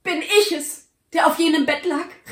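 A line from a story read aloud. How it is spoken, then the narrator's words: Cry while sinking to knees. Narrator (German): rief, auf die Knie sinkend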